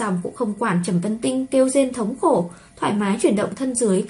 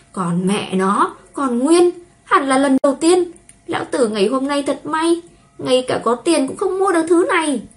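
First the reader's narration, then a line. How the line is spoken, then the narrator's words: Lustful groan. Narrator (Vietnamese): Gã đã phá thân của ả không nhịn được rên lên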